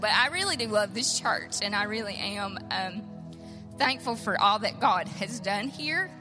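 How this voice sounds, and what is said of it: Emotional, voice near tears. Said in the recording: “getting emotional”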